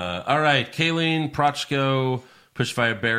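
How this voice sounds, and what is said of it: Usual voice. Nothing is said of it.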